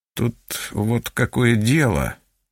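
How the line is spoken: Mumbling. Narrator (Russian): начал мямлить он

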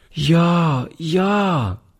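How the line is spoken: Little girl calling. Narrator (German): rief die Kleine

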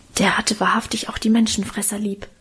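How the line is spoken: Low murmur. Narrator (German): raunte mir Karl zu

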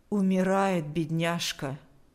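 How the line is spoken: Flat even voice. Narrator (Russian): сказала она ровным голосом

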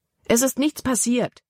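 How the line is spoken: Exclaiming. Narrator (German): rief Libby aus

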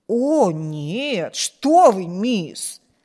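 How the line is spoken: Surprised exclamation. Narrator (Russian): воскликнула Сьюзен, слегка удивленная этим вопросом

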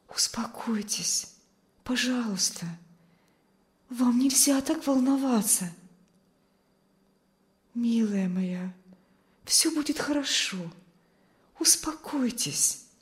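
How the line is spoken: Soothing whisper. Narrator (Russian): шептала миссис Ковальская

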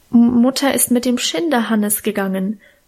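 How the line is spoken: Stammered. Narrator (German): stammelte ich

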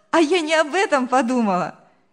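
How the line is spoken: Cheerful laughing girl. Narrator (Russian): весело рассмеялась девушка

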